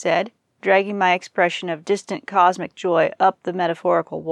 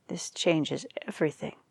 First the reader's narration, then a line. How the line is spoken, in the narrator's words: she muttered as she trotted away